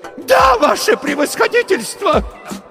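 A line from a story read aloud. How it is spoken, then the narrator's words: Falsetto shout. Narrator (Russian): Фальцетом выкрикнул он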